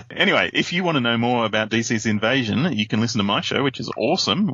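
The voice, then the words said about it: Australian English accent. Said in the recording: “English is not ... first language. Australian is. ... everyone else in the world has accents except for Australians”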